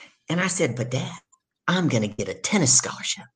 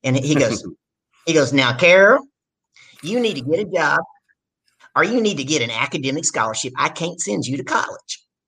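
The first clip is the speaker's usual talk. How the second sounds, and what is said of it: Imitated strong southern US accent. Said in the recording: “My dad's got a really southern accent”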